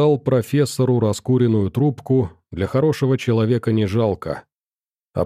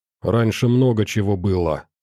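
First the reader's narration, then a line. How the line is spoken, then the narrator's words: Angry. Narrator (Russian): сказал я сердито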